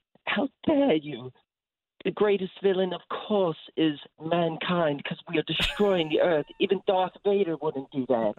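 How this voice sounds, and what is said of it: Imitates another person's voice. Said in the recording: “channel my inner Greta Thunberg... that's a really good impression... a pretty offbeat impression”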